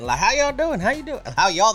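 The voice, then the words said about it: Put-on thick Southern US accent. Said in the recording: “it was very clear they were from the South. Deep, thick accent.”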